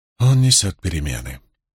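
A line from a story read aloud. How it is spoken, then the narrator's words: Hoarse whisper. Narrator (Russian): хрипло прошептала скрытая клубами пара Мэлэйн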